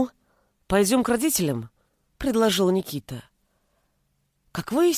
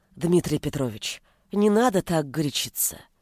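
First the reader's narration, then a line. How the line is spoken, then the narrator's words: Soft. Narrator (Russian): мягко произнесла Ивонна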